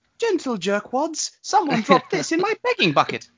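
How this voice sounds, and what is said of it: British little kid character voice. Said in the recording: “Tinny Tim impression ... you got to do a little kid, and he's British ... hitting the right octave”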